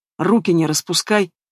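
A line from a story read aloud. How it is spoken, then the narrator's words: Icy. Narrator (Russian): ледяным тоном выдал Литвинов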